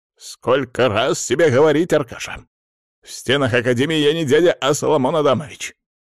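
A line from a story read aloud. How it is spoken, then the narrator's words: Barking, older man. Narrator (Russian): гаркнул человек значительно старше, судя по голосу, ровесник директора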